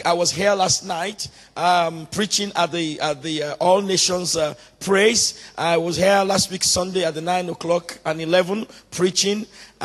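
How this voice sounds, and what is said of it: Hoarse, cracking voice. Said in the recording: “excuse my voice. My voice is cracking a little bit because I've been doing some screaming and praying and preaching all throughout the week”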